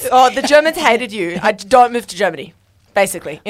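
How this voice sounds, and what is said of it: Bad put-on German accent. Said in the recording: “that was the worst German accent”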